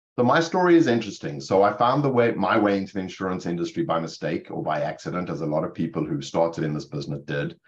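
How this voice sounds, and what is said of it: South African accent. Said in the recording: “The accent, you know, it's not Rutherford, New Jersey, Matt. It's Cape Town, South Africa.”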